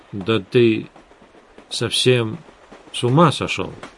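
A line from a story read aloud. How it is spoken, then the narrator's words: Hesitant. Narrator (Russian): неуверенно произнес Эдгар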